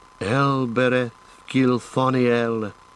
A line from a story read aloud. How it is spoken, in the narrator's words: sighed Legolas